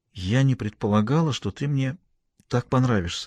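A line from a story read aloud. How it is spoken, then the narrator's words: Quiet. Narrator (Russian): сказала она тихо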